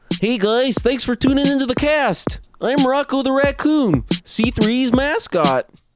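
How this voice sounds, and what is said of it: Raccoon mascot character voice. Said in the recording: “did a pretty great Rocco impression.”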